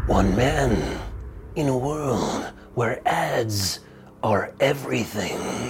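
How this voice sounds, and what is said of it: Movie trailer announcer voice. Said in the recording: “my movie voice? ... beginning of like movie trailer voice? ... Terrible? It's not that bad.”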